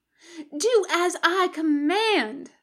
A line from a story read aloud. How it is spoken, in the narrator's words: the girl shrieked, incensed